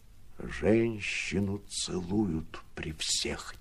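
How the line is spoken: Quiet, close to ear. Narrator (Russian): тихо сказал граф, нагнувшись ей на ухо

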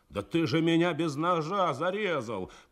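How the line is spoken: Shouted. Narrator (Russian): кричал Драчёнов, лишенный возможности подвозить материалы к строительным участкам

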